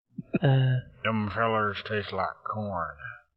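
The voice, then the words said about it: Put-on Southern American accent. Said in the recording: “Can you do like a southern accent?... Do a southern accent.”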